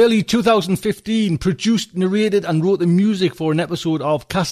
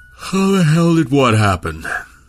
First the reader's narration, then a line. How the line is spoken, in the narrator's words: Milne asked, around a yawn born of too little sleep